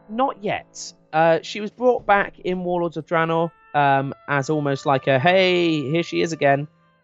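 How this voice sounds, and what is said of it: English accent. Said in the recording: “it's an English accent ... Because I'm English.”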